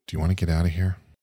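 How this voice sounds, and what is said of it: Whispering. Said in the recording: “lean in to like whisper something to her”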